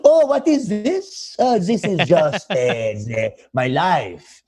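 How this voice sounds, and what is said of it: Put-on French accent. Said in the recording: “You immediately start a French accent.”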